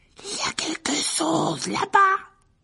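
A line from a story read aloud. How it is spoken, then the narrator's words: Hoarse voice. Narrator (French): dit Ron d'une voix rauque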